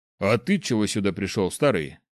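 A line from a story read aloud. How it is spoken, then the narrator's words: Big man's snort. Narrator (Russian): хмыкнул здоровяк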